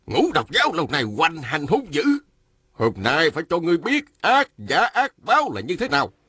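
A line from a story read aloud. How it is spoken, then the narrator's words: Angry. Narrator (Vietnamese): Đạo sĩ râu dài giận dữ nói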